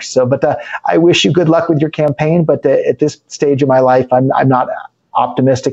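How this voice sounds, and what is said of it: American accent. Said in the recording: “despite my American accent”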